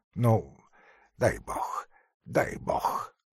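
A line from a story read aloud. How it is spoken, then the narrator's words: Mumble. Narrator (Russian): забормотал он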